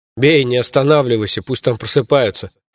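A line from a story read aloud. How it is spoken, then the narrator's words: Chuckling. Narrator (Russian): хохотнул я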